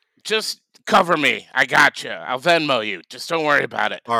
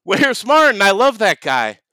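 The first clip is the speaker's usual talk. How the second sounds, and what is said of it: Screaming loudly. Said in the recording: “stop screaming”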